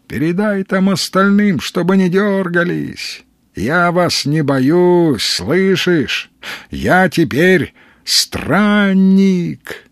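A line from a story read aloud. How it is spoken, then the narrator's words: Cheerful shout after someone. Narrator (Russian): весело крикнул ей вдогонку Сергей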